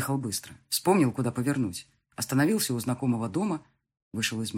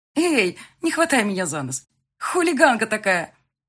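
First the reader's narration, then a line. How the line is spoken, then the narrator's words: Exclaimed. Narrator (Russian): Воскликнула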